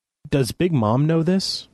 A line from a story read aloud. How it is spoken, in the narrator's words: I stammered